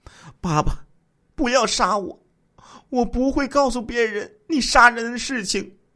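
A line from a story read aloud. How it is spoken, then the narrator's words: Crying, pleading child. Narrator (Chinese): 二女儿哭着说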